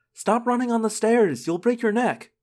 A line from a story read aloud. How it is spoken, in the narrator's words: I heard Jordan yell